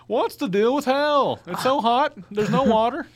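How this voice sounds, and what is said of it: Good Jerry Seinfeld impression. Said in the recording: “That's a pretty good Jerry Seinfeld impression by you.”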